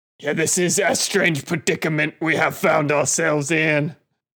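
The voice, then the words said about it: Put-on fantasy elven accent. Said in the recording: “What is this voice you're like? What is this accent you're trying to put on? ... It is an elven accent of the area. ... He sounds like the roach in disguise from Men in Black.”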